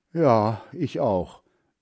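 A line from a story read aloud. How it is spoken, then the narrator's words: Sigh. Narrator (German): seufzte Hans Frieder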